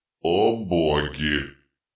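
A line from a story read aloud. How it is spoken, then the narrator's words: Muttered to no one. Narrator (Russian): пробормотал он, никому особенно не обращаясь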